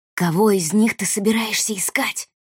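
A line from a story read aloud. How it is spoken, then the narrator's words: Quiet question. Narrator (Russian): тихо спросил Рианон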